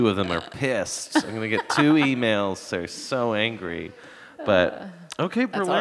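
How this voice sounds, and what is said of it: Usual voice. Nothing is said of it.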